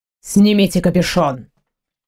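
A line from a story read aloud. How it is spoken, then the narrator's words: Curt command. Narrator (Russian): Отрывисто приказал он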